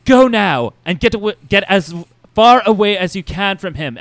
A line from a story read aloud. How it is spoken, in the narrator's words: Emma yelled